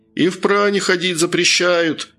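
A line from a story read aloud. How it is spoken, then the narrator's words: Shout. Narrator (Russian): крикнул еще кто-то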